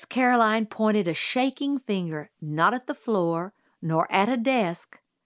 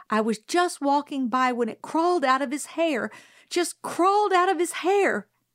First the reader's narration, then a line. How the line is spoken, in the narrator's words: Miss Caroline said desperately